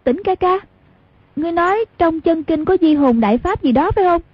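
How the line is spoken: Dazed, sudden cry. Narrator (Vietnamese): Đúng lúc thần trí nửa mê nửa tỉnh ấy, lập tức như tỉnh mộng kêu lên

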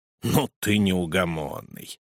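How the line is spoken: Grumbling. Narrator (Russian): проворчал советник

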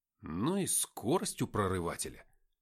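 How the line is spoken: Muttered. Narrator (Russian): пробормотал я

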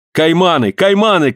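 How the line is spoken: Shouted. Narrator (Russian): крикнул Вильсон

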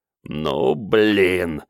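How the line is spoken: Growled. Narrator (Russian): рычал Вано

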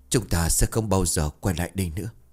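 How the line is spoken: Nervous trembling voice. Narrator (Vietnamese): Ông Sang nuốt nước bọt, miệng run rẩy

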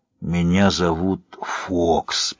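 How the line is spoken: Hoarse whisper. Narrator (Russian): прошептал сипло

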